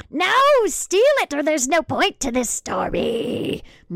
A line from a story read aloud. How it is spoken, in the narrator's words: Martha screamed